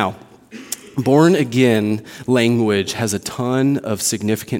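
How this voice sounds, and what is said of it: Usual voice. Nothing is said of it.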